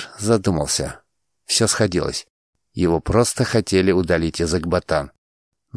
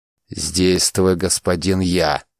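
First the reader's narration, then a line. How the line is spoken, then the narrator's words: Sharp, displeased interruption. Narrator (Russian): Резко оборвал его Штумегу, состроив недовольную гримасу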